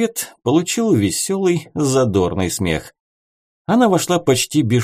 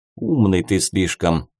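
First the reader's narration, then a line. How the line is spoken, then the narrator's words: Inner grumble. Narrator (Russian): мысленно буркнул Клим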